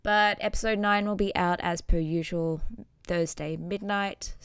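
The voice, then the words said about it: Tired-sounding voice. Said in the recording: “You can probably hear it in my voice, how tired I am right now.”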